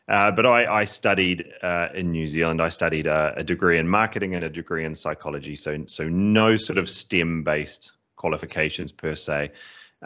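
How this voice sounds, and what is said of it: Mixed British and New Zealand accent. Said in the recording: “I am originally from New Zealand, which is why there's a bit of an odd accent there, a bit of a cross between British and Kiwi there.”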